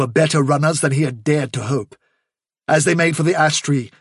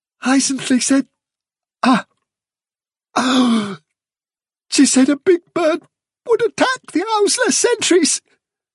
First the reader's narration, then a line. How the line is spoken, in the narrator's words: gasped Nelfilter